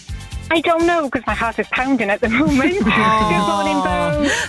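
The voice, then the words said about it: South Wales accent. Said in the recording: “in South Wales ... Your gorgeous morning, accent there ... Oh, it's stunning. I love it ... Oh, no, it's beautiful.”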